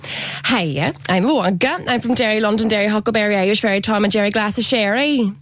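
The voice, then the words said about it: Rich regional accent. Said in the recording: “Lovely, rich accent.”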